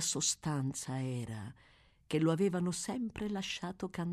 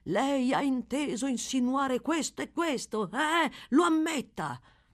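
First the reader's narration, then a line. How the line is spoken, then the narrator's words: Harsh shout. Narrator (Italian): gridargli, a muso duro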